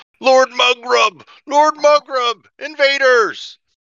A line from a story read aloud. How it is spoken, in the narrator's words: as he's running towards the back, you hear him yelling